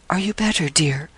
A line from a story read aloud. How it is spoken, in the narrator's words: whispered Rachel